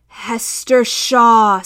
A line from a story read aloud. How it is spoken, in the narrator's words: screeched a voice like a saw cutting metal